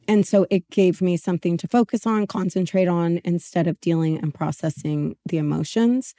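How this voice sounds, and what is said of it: Hoarse, fading voice from a cold. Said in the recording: “I am losing my voice right now ... because of germs ... a cold”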